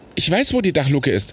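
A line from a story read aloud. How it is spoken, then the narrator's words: Calling out. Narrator (German): rief Robin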